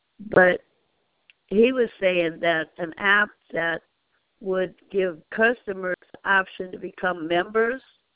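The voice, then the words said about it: Congested, weird-sounding voice. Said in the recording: “I've got a bad cold, which is why my voice sounds so weird”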